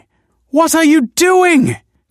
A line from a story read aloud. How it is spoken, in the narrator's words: cried the woman